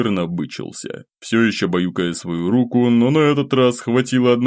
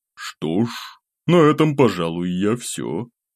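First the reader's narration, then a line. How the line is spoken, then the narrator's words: Sighing, then serene. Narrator (Russian): вздохнул, следом безмятежно добавив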